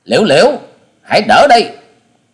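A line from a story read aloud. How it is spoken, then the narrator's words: Shout. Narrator (Vietnamese): tiếng quát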